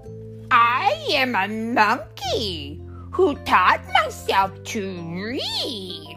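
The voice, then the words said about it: Silly monkey character voice. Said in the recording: “with my monkey mouth in my monkey voice”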